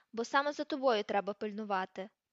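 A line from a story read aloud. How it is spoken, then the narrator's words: Growled. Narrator (Ukrainian): прогарчав Муді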